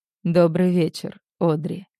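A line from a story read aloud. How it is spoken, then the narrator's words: Velvety voice. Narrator (Russian): произносит он этим своим бархатным голосом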